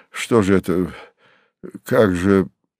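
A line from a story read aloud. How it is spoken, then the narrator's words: Confused muttering. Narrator (Russian): растерянно бормотал он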